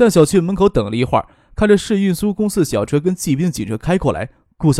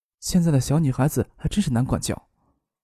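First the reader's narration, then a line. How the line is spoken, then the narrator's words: Stern, sighing. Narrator (Chinese): 顾小梅板起脸来，摇头叹息的说道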